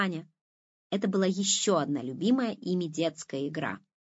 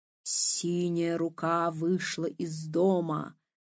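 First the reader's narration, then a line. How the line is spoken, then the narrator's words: Sepulchral, habitual intoning. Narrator (Russian): за могильным голосом привычно завела Лиза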